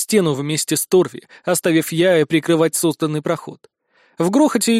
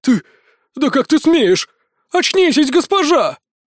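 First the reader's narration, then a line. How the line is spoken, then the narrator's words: Whimpering. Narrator (Russian): Он натурально заскулил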